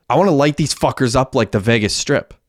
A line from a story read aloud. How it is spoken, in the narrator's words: Hecky yelled